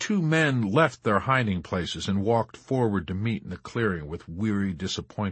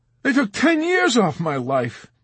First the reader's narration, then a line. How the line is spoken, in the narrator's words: Dunbar exclaimed